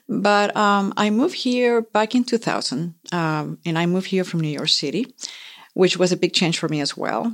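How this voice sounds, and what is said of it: Pretty foreign accent. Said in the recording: “which is why I have this accent. ... It's a wonderful accent. It's very pretty.”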